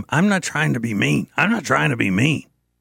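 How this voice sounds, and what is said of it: Raspy impression of Mr. Winterbull. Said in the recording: “Is that a good impression of him? ... He's got that raspy voice.”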